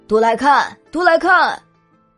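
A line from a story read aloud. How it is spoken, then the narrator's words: Eager, vigorous shouting. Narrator (Chinese): 三个算命的喊得可起劲了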